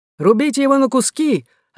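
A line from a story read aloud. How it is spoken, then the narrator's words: Exclamation. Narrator (Russian): воскликнул другой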